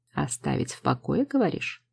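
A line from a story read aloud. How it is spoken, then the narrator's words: Thoughtful. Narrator (Russian): задумчиво произносит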